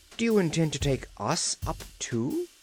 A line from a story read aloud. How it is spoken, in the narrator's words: exclaimed Trot